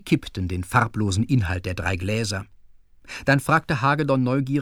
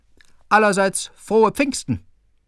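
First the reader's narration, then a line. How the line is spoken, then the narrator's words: Calling out. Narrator (German): rief er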